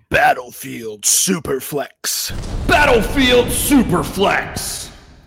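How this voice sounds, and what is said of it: Deep movie trailer announcer voice. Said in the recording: “You got to do it in Mr. Movie Phone voice.”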